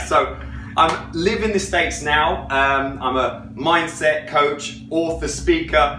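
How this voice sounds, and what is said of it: English accent with Australian-sounding twang. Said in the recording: “across the pond to the right, like England ... 90% of people think I'm Australian. I don't know, I got a weird twang”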